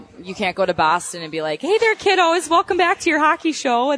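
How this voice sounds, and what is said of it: Exaggerated Minnesota accent. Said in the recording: “you've been, been in Minnesota for most of your life ... does the accent hold you back ... it comes out every now and then ... So you can't be talking like that.”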